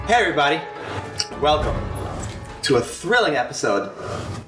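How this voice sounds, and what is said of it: Exaggerated radio-host podcast voice. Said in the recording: “podcast voice. You're doing a podcast voice.”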